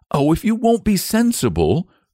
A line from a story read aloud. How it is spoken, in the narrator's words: cried the boy